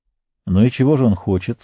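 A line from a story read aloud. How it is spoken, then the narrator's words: Calm question. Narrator (Russian): спокойно спросил Фродо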